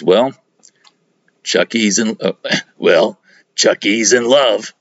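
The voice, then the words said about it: Imitates another person's voice. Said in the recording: “That's my best Tom Waits impression. Can't do it.”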